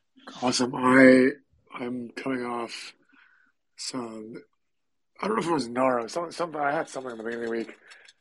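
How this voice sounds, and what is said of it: Unwell, rough-sounding voice. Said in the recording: “clearly my voice is not ideal”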